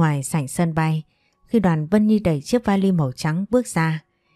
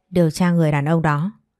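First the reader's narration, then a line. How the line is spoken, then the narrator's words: Cold. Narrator (Vietnamese): lạnh lùng nói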